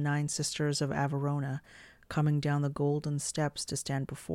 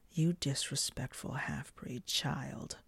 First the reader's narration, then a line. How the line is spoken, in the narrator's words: Morg hissed